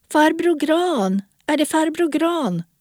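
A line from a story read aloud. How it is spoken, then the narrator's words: Calling out. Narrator (Swedish): någon ropade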